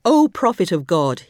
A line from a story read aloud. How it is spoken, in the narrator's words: he cried